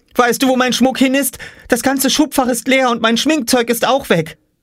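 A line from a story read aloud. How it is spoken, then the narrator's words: Called out. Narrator (German): rief sie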